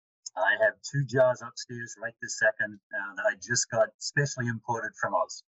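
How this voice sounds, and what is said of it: Australian accent, somewhat Americanized. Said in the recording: “fellow Aussie, even though his accent's a little bit more Americanized than mine”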